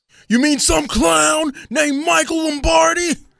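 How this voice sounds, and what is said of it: Impression of Jason Kelce. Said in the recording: “an impression of uh, Jason Kelce”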